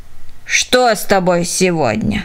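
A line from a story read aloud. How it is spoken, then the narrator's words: Old woman grumbling. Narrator (Russian): проворчала старушка Потс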